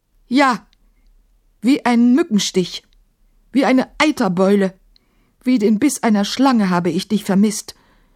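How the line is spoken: Calling back. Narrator (German): rief Maimun zurück

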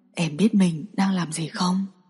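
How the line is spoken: Husky, intimate. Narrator (Vietnamese): Bạch Tiến Vũ giọng khàn khàn nói

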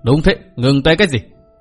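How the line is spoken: Sneering speech. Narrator (Vietnamese): Mạc Nam Lão Ma cười khẩy nói

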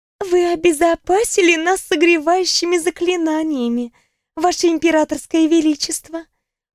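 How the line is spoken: Purring female voice. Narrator (Russian): промурлыкала Ньяра Цыкин

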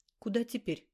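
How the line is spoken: Plain. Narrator (Russian): спросил он

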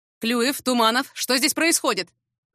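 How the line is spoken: Shouted while rushing. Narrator (Russian): прокричал учитель физики, на всех парах спешащий к месту боевых действий

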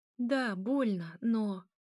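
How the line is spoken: Moaning in pain. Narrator (Russian): Она застонала вместе с ним

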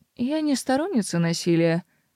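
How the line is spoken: Gentle reassuring tone. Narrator (Russian): заверила мэр ласковым тоном

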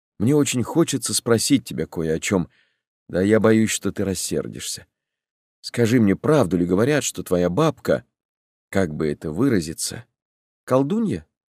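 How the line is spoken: Calm. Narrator (Russian): спокойно помогла мне Олеся

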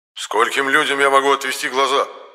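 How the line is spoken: Angry blurt. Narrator (Russian): сердито выпалил енох

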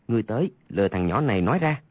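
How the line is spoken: Lowered voice. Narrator (Vietnamese): hạ giọng nói với con thứ ba là Oa Khoác Đài

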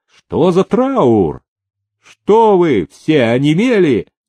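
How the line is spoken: Loud shout breaking silence. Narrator (Russian): Салтыков нарушая тишину, закричал

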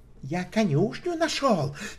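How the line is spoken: Offended tone. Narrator (Russian): тем же обиженным тоном заявил Мэтти

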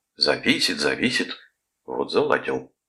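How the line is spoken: Displeased grumbling. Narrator (Russian): недовольно проворчал Калдервуд

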